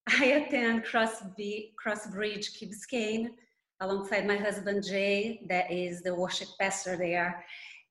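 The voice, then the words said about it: Brazilian accent. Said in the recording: “as you can tell by my accent, I'm Brazilian”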